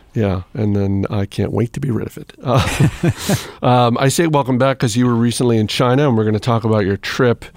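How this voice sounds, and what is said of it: Slightly hoarse voice. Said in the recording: “You still sound a little hoarse.”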